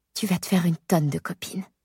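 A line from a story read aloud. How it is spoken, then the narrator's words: Whispered in the ear. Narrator (French): je murmure à son oreille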